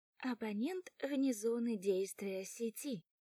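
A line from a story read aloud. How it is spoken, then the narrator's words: Cheerful female voice. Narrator (Russian): сообщает радостно женский голос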